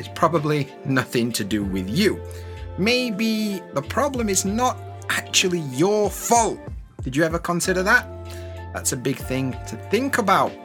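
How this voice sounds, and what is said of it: Slow, clear teacher voice. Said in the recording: “This is not my real accent. This is my teacher voice ... I also speak slowly, I pronounce the words clearly”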